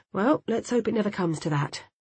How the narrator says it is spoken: he sighed

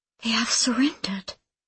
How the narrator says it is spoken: she whispers

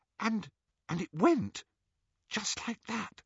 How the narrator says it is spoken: she whispered

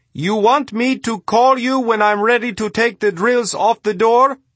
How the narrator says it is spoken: Yassin wasn't sure he heard him correctly, and yelled into the radio

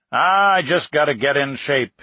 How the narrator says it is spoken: he'd grumble to his few close friends

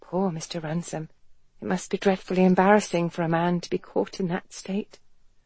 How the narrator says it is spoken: Helen regained her composure and murmured

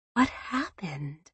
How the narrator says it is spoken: Marilyn murmured to James

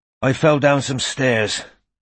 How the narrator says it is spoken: said Strike, panting a little

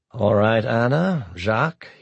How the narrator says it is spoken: he said flatly

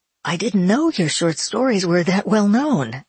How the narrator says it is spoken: exclaimed Mike, looking proud and amazed

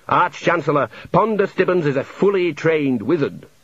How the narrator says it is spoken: said the dean

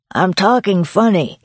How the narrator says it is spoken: slurred

